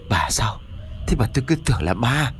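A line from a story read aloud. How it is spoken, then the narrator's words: Shaken, breathless old man. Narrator (Vietnamese): Ông Chánh biết đó là vợ của mình, nhưng mà tâm thần vẫn bấn loạn, cho nên thở hổn hển một lúc rồi mới cất tiếng nói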